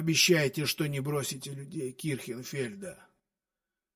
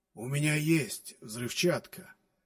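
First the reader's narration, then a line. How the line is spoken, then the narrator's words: Weak hoarse rasp. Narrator (Russian): прохрипел Бейкер, который явно чувствовал себя хуже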